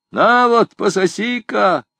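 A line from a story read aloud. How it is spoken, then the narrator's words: Shouting. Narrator (Russian): крикнул Робен Пуспен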